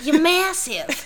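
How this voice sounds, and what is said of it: Little old lady voice, slight southern accent. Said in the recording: “In her little old lady, slightly southern accent.”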